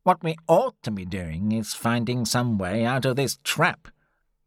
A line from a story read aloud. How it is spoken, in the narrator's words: Summerlee, who'd been in a bad mood since that morning, said irritably